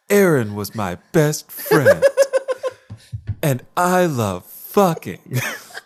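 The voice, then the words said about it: Imitates another person's voice. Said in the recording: “I'll do it as Kim Cattrall ... very somber cough ... I can't take credit for that impression because it's an impression of someone else's impression”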